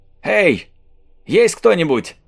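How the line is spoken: Shout breaking church silence. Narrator (Russian): крикнул Марк, чтобы разрушить могильную тишину, царившую в церкви

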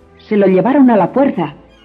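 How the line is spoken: Shouted. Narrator (Spanish): gritó

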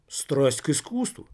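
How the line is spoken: Loud laughter. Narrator (Russian): все в прошлом расхохотался

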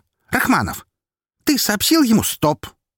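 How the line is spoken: Sharp. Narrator (Russian): резко сказал Роман

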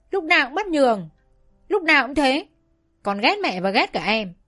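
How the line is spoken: Furious yelling. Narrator (Vietnamese): Tôi tức quá, hét lên

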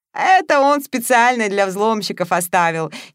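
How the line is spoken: Giggling, big young man. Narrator (Russian): хихикнул крупный парень

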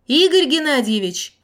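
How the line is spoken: Woman shouting. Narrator (Russian): крикнула кутавшаяся в шаль женщина

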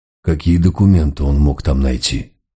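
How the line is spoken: Asked with a sigh. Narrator (Russian): вздохнув, спросил Мегре

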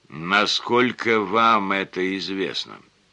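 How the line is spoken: Calm but insistent. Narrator (Russian): Детектив говорил спокойно, но с такой настойчивостью

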